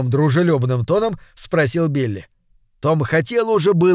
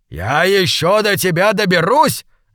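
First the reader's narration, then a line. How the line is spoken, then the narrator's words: Barking snap. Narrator (Russian): рявкнул Билли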